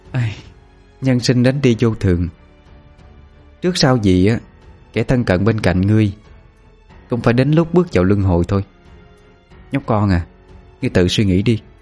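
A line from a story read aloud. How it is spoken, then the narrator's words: Serious sigh. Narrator (Vietnamese): Cô gái thôi không đùa giỡn nữa, thở dài mà nói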